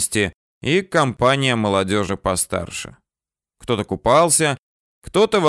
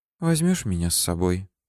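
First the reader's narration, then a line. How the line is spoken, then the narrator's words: Whispered reply. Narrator (Russian): шепнула она мне в ответ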